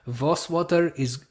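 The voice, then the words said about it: Put-on Russian accent. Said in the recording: “I did a Russian accent”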